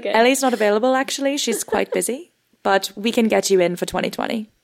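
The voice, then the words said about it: Put-on British accent. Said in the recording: “Is your agent just you in a British accent? ... Yeah. Yeah. ... my British agent”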